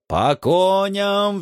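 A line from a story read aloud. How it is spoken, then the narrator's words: Roaring. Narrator (Russian): взревел я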